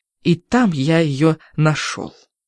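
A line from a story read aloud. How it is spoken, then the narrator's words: Cracked trembling voice. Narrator (Russian): скажет он над треснутым дрожащим голосом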